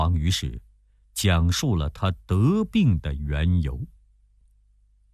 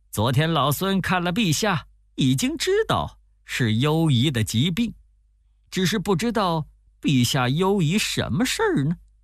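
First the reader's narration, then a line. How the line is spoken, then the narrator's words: Laughing. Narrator (Chinese): 悟空笑着说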